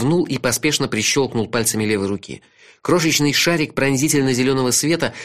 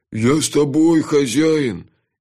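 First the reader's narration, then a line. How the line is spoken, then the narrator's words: Muffled, deep guttural voice. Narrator (Russian): глухим утробным голосом сообщил тот, оседая на землю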